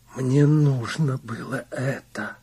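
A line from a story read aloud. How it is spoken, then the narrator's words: Whisper. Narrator (Russian): прошептала она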